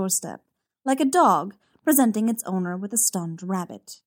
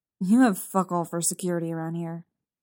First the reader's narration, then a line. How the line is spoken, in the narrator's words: Logan grumbles at him